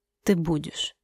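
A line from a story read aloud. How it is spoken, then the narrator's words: Quiet. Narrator (Russian): сказал он тихо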